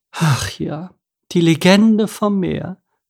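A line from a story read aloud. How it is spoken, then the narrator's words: Sigh. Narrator (German): seufzte Edith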